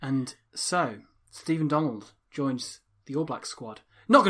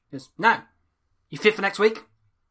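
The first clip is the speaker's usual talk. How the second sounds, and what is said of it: Graham Henry impression. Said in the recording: “My Graham Henry impression is getting considerably worse as time goes on.”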